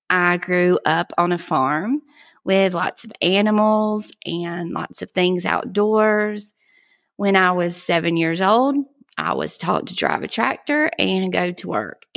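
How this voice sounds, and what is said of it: Thick Southern US accent. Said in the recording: “I have a pretty thick accent, and I live in South Georgia”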